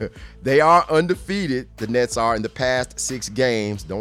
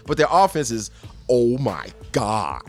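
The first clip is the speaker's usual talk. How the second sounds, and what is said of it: Jay Bilas impression. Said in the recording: “my Jay Billis impression”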